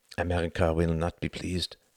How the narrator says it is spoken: murmured Charles

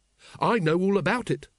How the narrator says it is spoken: said Carrot triumphantly

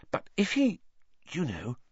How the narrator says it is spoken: Hermione dropped her voice

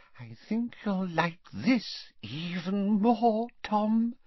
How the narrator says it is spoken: she whispered

